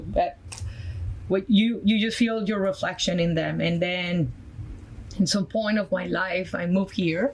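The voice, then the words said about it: Colombian Spanish accent. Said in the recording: “my background from Colombia, South America, my accent is from there.”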